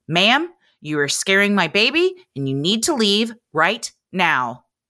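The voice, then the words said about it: Stern scolding mom voice. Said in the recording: “in my best stern mom voice”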